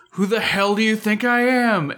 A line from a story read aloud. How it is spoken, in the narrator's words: Zin screams out